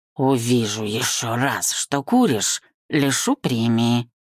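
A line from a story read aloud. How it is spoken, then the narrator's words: Speaking through teeth. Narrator (Russian): процедил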